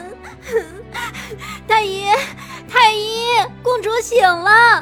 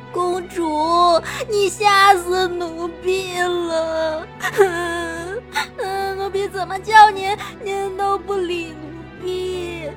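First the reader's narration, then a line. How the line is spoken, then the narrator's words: Laughing and crying joyfully. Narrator (Chinese): 殷小谷开心的直落泪，边笑边哭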